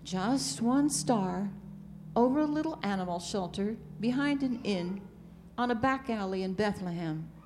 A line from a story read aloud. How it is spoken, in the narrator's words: the messenger repeated with a sigh